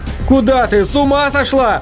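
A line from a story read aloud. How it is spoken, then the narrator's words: Yelled. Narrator (Russian): заорал Влад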